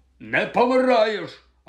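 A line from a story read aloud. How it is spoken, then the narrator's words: Pale, harsh bark. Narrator (Ukrainian): гаркнув сполотнілий Гегріт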